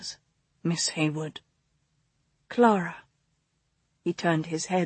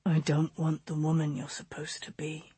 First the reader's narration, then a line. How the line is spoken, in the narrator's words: he said, his voice low